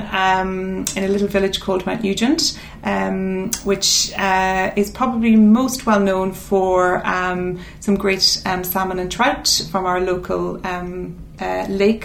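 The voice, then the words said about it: Irish accent, not English. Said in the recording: “that's not an English accent. You're from Cavan.”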